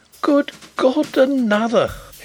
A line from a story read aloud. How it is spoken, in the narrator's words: he exclaimed faintly